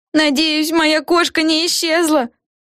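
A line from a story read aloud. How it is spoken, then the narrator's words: Shouting. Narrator (Russian): кричала другая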